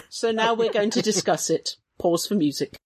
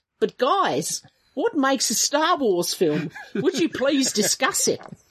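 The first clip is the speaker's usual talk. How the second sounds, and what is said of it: Put-on accent. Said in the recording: “That was a very good impression... It was my best accent.”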